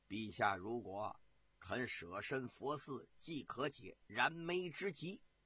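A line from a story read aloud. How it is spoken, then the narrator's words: Low voice. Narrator (Chinese): 朱毅低声地对武帝说道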